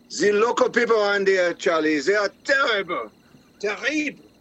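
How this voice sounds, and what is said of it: Put-on French accent. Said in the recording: “He probably didn't like your accent. ... French were not well liked.”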